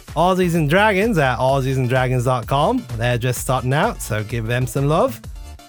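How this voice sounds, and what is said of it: Congested, stuffy-nosed voice. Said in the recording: “Sorry for the accent. Got a cold.”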